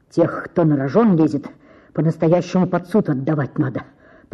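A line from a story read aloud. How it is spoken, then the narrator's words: Muttering. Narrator (Russian): пробормотал Коростелев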